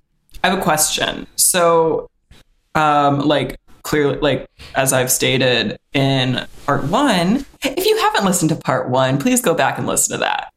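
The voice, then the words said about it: Polished customer-service voice. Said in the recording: “customer service voice”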